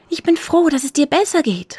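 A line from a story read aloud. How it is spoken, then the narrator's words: Calling out. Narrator (German): rief Jaroslava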